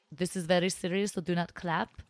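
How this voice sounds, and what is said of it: Put-on Russian or Eastern European accent. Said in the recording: “Was I doing an Indian accent? ... No, it sounded Russian or Eastern Slavic bloc or something.”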